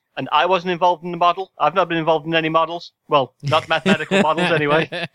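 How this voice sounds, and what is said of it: Imitates another person's voice. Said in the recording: “I'm pointing your accent, not Donald Trump”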